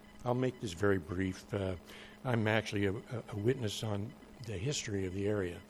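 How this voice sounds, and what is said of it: Rough, hoarse voice. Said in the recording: “My voice is kind of rough this morning.”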